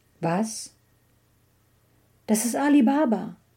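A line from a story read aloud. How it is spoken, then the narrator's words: Joyful exclamation. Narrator (German): rief Scrooge voller Freude aus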